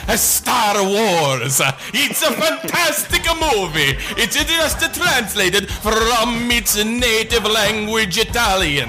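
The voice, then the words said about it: Shifting fake Peruvian-Italian-Eastern European accent. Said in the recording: “this accent? Is that it morphs from some kind of strange, not really Peruvian, to Italian, to this time you went into some kind of weird, like, Eastern European ... The power of the Peruvian accent”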